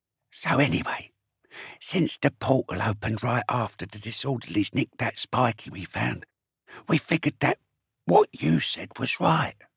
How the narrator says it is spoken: Swipe said quietly

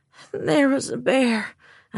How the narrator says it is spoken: I murmured

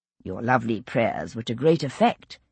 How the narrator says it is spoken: he assured her gravely

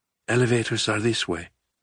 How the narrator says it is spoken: Umbra whispered

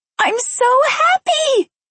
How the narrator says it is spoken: Maria screamed

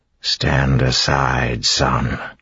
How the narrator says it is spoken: Set said in a tired voice

